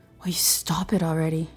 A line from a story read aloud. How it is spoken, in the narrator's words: mutters, not to anyone in particular